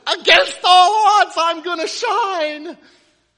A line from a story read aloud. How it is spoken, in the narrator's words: He yells out